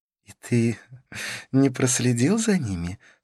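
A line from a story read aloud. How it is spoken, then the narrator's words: Laughing question. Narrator (Russian): спросила Карлос, смеясь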